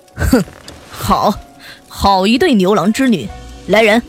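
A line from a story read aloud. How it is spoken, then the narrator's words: Cold laugh. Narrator (Chinese): 玉帝冷冷一笑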